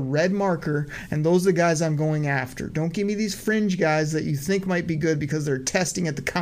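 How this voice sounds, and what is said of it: Usual voice. Nothing is said of it.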